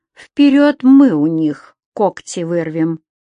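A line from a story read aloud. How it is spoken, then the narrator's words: Slow. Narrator (Russian): так же медленно сказал Леша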